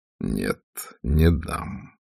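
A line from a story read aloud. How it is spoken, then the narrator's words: Soft, firm, pleased. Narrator (Russian): С нескрываемым удовольствием он мягко, но решительно произнес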